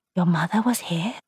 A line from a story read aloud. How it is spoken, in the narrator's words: Joan whispered